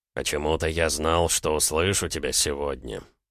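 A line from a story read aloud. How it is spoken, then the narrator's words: Muttered. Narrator (Russian): пробормотал индеец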